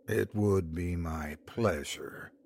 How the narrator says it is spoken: he said in a measured, slow, soft voice

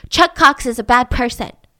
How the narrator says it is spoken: Out of nowhere, Charlie once blurted

